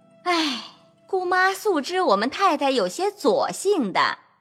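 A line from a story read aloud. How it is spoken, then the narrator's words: Sighing. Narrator (Chinese): 凤姐儿叹道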